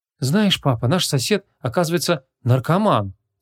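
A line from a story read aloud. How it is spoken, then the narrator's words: Heavy sigh. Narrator (Russian): Тяжело вздохнула Ванесса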